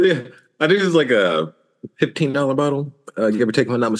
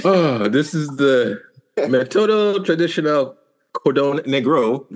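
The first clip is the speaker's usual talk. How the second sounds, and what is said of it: Put-on Spanish accent. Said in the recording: “Why the fuck did you just have a Spanish accent when you said that shit? ... You got all Latin on us”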